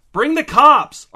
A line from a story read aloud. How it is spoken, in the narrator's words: Arthur shouted into the phone